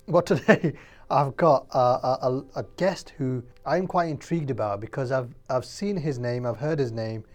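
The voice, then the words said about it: Voice affected by a cold. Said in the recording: “I've got a bit of a cold, so if I do cough during the podcast ... man flu”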